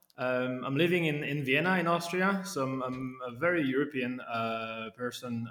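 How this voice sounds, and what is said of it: French accent. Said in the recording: “as you can hear from the accent, I'm uh, born, I was born in, in France”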